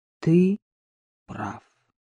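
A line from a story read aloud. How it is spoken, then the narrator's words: Turning serious, repeating. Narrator (Russian): Лицо его медленно становилось серьезным, и он повторил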